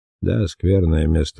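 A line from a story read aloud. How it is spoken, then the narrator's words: Grumbling mutter. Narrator (Russian): буркнул Ари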